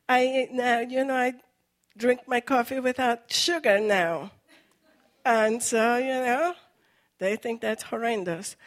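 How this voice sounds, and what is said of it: Foreign accent in English. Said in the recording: “as soon as I open up my mouth, you know I am a foreigner. You see, you hear my accent ... So I have an accent in English”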